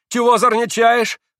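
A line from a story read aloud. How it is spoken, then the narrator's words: Shouting. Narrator (Russian): закричал мещанин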